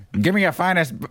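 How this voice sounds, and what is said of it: 1920s flapper-style voice. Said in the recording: “He sounds like a flapper from the 20s”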